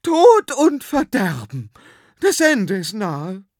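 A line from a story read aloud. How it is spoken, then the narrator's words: Trembling proclamation. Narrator (German): verkündete mit bebender Stimme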